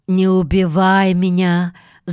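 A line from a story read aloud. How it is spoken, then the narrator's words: Bird speaking in human voice. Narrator (Russian): заговорила ронжа человеческим голосом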